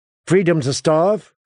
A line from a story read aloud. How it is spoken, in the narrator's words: Danny asked sharply